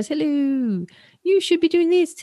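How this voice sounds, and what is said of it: Clumsy put-on leprechaun accent. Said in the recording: “this imaginary leprechaun that sits on your shoulder and goes ... I'm not really good at doing accents”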